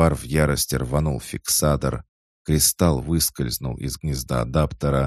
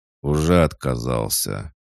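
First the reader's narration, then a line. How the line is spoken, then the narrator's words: Gloomy reply. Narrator (Russian): мрачно ответил Анвар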